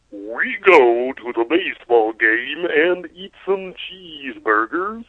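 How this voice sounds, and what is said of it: Convincing put-on American accent. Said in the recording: “my American accent ... It's pretty convincing.”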